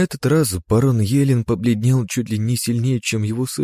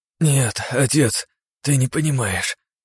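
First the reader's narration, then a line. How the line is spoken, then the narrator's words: Wheezing. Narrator (Russian): прохрипел Павел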